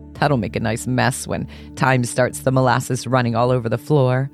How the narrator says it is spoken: said Jim with a laugh

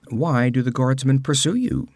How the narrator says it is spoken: asked Tito

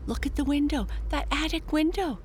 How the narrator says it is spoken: Jessie exclaimed

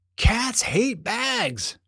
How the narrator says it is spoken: shouted Finn

